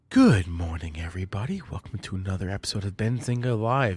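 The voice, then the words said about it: Late-night radio host voice. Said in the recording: “late night radio voice? ... my like late night hotline voice”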